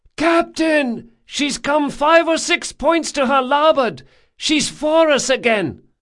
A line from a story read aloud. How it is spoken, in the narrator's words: came the shout